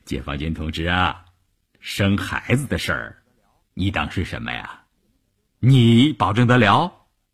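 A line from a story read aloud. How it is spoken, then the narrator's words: Smiling but unyielding. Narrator (Chinese): 车长虽然笑着，却把车门堵得死死的，一副毫不通融的样子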